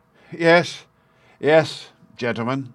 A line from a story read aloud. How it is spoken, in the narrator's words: panted